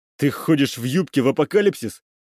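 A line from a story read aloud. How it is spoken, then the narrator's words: Snorted. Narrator (Russian): Лера фыркнула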